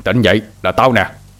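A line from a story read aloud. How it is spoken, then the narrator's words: Sharp shout. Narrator (Vietnamese): Hai Đèn lại quát lên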